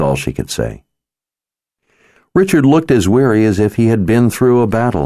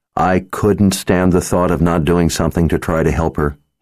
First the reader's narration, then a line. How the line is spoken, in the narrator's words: he said